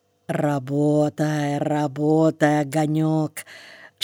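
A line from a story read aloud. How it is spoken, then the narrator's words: Glad whisper. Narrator (Russian): шептал Ломов, обрадованный неожиданной переменой в поведении собаки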